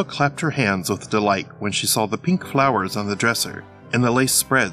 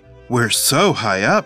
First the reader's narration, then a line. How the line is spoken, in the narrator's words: cried